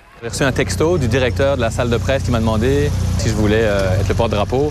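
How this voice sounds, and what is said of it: Mixed Belgian and Québécois French accent. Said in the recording (French): “Vous allez l'entendre avec son accent ... Quand je suis en Belgique, j'ai l'accent québécois, puis ici, le monde me dit que j'ai l'accent belge.”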